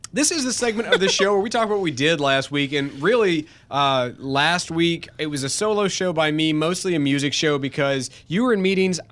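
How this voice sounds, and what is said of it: Slightly sick, altered voice. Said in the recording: “I was getting sick. I'm actually kind of over it, but you can kind of hear my voice is a little different now.”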